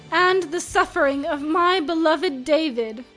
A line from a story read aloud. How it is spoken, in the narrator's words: Bernard moaned in pain